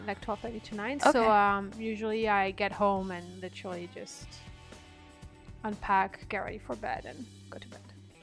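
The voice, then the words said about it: Slight French accent. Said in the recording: “a bit of what I'd pick up as a like French accent”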